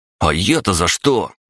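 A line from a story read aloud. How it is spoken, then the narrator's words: Irritated exclamation. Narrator (Russian): раздраженно воскликнул Андрей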